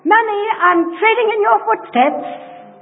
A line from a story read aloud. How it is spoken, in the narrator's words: my little boy was running, he's a great big fellow now, but he was running after me and he called out